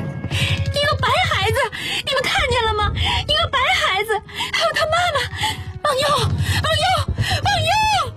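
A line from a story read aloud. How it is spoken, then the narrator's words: Frantic shrieking. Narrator (Chinese): 他尖叫起来，比天上的警报还惊心动魄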